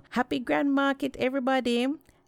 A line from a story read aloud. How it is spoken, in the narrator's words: Anansi called out to the people